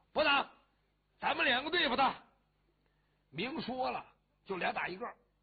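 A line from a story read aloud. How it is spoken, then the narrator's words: Shouting. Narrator (Chinese): 谢英登喊了一声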